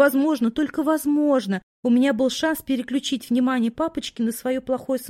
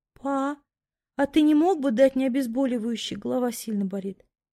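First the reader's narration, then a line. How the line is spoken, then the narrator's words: Weak pitiful babble. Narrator (Russian): Вмиг ослабевшим голосом пролепетала, уповая на жалость отца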